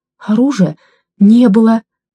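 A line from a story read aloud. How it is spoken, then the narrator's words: Babbling, groaning, sobbing. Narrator (Russian): Залепетал, застонал, зарыдал Мешков Громов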